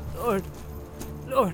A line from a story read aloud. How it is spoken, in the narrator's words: began Merry brokenly